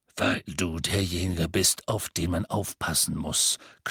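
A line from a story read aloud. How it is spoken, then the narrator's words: Growled. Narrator (German): knurrte Moody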